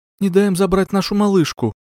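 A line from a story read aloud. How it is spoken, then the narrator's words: Pleading woman. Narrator (Russian): Взмолилась женщина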